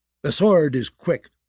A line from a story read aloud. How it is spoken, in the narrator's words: Tarly snapped